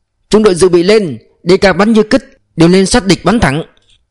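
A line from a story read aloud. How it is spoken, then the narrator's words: Shouted. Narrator (Vietnamese): Quốc Trấn hét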